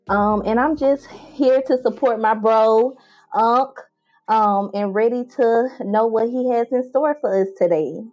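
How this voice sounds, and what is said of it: Southern US Mississippi accent. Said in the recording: “I'm originally from Mississippi, as you can tell with my accent, very country gal, Southern Belle.”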